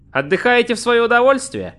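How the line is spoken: Friendly inquiring tone. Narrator (Russian): поинтересовался он дружелюбным тоном

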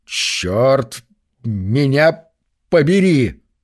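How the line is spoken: Slow, measured. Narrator (Russian): Медленно с расстановкой сказал Норман

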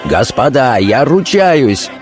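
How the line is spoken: Straining shout. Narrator (Russian): надсаживаясь, закричал старшина

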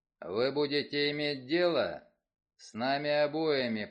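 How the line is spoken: Low booming voice. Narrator (Russian): прогудел Вульф

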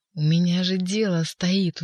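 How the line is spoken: Growled. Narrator (Russian): уже рычал Римский

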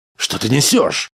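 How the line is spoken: Yelled. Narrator (Russian): заорал Грегор

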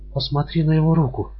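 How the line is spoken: Trembling whisper. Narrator (Russian): прошептала она с дрожью

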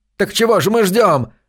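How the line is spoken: Young, furious tearful yell. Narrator (Russian): заорал юный Билорд со слезами ярости на глазах

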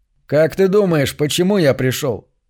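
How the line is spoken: Wry grunt. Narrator (Russian): Кифер хмыкнул

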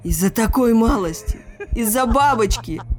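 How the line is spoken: Shouting. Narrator (Russian): закричал Экельс

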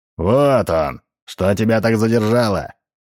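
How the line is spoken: Booming. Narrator (Russian): прогремел дядя Тап

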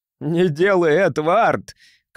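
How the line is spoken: Shouting. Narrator (Russian): крикнул Даттон

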